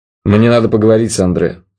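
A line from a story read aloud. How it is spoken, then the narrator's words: Menacing. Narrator (Russian): сказал он грозно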